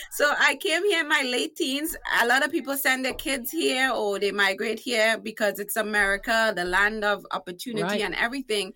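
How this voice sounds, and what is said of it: Trinidadian accent. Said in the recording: “I am from one of the greatest islands on earth called Trinidad and Tobago, hence my accent. And obviously it's also one of the sexiest accents”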